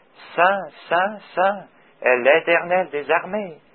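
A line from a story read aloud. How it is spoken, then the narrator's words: Very soft voices. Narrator (French): ils doivent l'avoir dit très doucement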